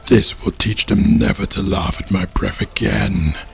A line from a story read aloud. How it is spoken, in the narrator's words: muttered to himself